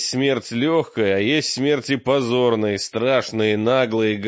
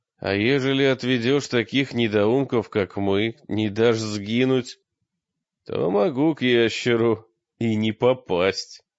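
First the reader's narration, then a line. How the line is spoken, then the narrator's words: Plain, old man. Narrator (Russian): ответил старик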